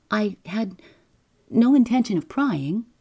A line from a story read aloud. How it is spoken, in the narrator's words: he stammered